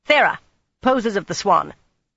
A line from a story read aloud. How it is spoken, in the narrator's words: the sharp-faced woman barked